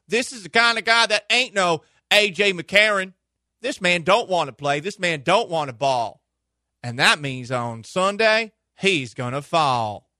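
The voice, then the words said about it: Put-on Southern twang. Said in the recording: “Add a little southern twang to it. ... doing a southern voice”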